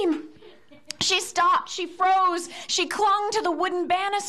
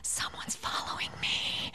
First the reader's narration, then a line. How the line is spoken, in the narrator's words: she whispered